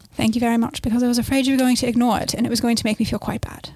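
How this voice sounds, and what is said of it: Put-on accent. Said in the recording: “my co-host's new accent ... It's improving. I think it's better now than it was at the beginning of the episode.”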